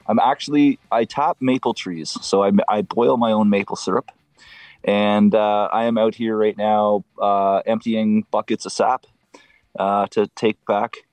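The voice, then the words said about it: Canadian accent. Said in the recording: “we know you're from Canada because of the accent. We can tell.”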